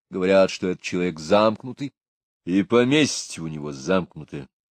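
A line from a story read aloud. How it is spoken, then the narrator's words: Gloomy. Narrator (Russian): мрачно сказал Патрик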